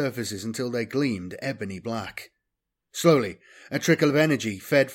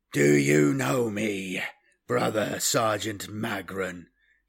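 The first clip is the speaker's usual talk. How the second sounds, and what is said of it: Hollow voice. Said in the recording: “he inquired in a hollow voice.”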